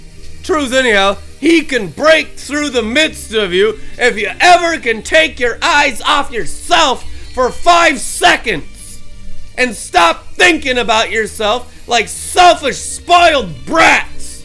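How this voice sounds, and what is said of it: Loud yelling preacher. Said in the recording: “I'm yelling at you ... It's a lion's roar.”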